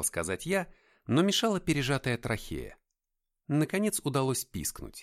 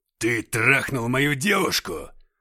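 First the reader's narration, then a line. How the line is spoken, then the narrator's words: Growled. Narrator (Russian): рыкнул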